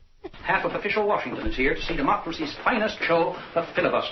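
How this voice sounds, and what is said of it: Old-timey mid-Atlantic accent. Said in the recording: “what the hell accent was that? ... I have a mid-Atlantic accent. ... old-timey. ... British. ... But it's not quite American either.”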